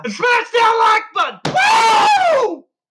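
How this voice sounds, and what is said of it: Yelling into the microphone. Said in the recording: “Why are you yelling? ... You're scaring away everybody. ... They like you yelling into the microphone?”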